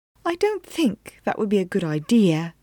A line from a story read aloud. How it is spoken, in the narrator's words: Miss Mage said quietly